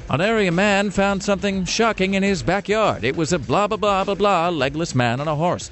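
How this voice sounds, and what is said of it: Mock TV newscaster inflections. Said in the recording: “I can be a newscaster, you know? ... I can do those inflections.”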